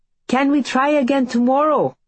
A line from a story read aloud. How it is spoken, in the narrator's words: Bella yells over the muted clop of hooves on the soggy road